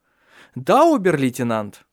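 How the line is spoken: Joyful reply. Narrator (Russian): радостно ответил Тронт

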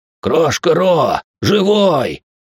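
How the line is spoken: Dwarf's joyful exclamation. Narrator (Russian): радостно воскликнул карлик

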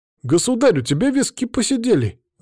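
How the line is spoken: Surprised exclamation. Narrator (Russian): воскликнул удивленный Трубецкой

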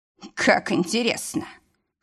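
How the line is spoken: Hoarse exhale. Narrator (Russian): Хрипло выдохнул

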